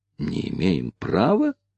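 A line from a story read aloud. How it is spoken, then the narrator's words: Slightly annoyed whisper. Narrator (Russian): с легкой досадой переспросил Ричард, также шепотом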